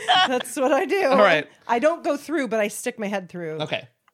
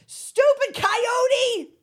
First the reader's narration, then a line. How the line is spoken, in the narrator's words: I yell at the ceiling